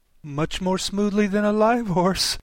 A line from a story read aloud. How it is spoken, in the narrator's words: Alice said, with a little scream of laughter, in spite of all she could do to prevent it